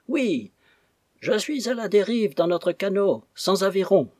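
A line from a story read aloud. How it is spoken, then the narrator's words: Shouted. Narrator (French): nous cria-t-il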